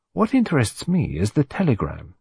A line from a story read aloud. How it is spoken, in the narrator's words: said Poirot